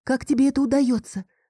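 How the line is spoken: Frightened question. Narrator (Russian): спросил я испуганно

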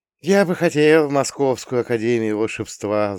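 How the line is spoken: Wistful sigh, young boy. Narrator (Russian): вздохнул рыжий, 12-летний, тощий Вовка

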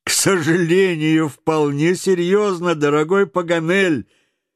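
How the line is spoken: Reply amid laughter. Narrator (Russian): ответил среди общего хохота Гленнерван

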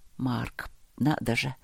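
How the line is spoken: Muttering. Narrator (Russian): пробормотал он

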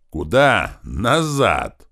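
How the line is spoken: Yelling at full volume. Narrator (Russian): заорали мы, что есть мочи

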